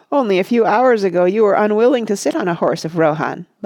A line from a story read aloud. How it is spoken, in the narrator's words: laughed Legolas